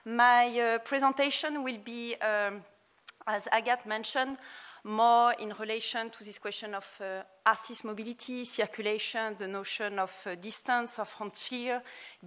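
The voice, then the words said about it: French accent speaking English. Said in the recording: “Obviously, I'm French, but I mean, you can guess with my accent ... with my accent, you can understand everything”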